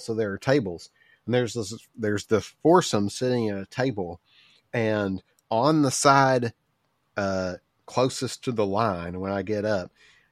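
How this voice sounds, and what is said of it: Pretty obvious accent. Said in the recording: “I have a pretty obvious accent.”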